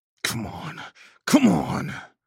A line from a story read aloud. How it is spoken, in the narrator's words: I snarled